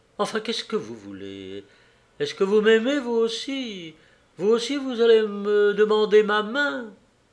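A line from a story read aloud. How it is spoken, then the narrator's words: Stammering. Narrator (French): J'ai balbutié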